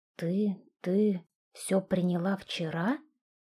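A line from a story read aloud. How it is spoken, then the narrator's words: Wild-voiced question. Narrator (Russian): спросил я диким голосом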